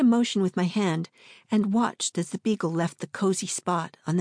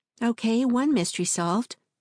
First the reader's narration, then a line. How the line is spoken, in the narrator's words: said